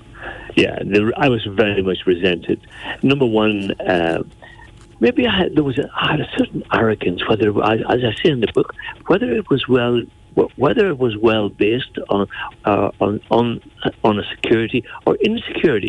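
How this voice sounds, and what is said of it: Northern Irish South Armagh accent. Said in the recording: “my accent militated against me, being born and reared in South Armagh”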